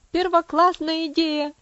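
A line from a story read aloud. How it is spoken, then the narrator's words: Shouting. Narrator (Russian): закричал Хэролд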